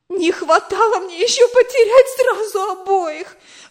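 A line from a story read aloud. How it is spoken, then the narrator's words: Exclaiming. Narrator (Russian): воскликнула она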